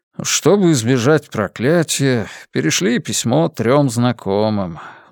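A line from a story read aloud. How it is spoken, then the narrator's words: Sigh. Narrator (Russian): вздохнул отец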